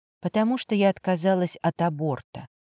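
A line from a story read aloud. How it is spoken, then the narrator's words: Quiet. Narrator (Russian): она тихо произнесла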